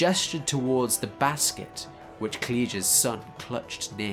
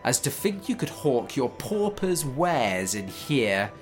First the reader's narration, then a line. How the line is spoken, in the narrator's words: the steward did sneer